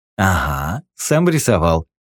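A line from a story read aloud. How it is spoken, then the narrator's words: Laughing. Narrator (Russian): рассмеялся наемник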